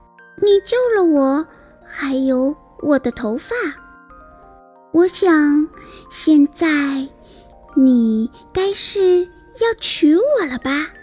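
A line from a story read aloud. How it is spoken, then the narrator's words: Sighing exclamation. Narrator (Chinese): 长发姑娘感叹道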